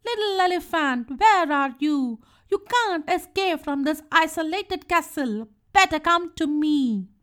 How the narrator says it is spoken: She shouted angrily

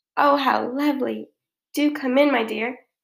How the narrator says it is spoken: croaked the wolf

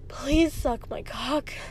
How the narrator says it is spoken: gasped, the words burning on the way out

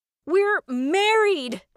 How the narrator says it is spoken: I laugh yelled back at her

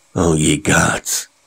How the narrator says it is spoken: Kennicott groaned frantically

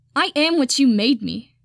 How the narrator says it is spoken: Nagisa shouts

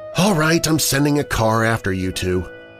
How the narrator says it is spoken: She lets out a snort and says

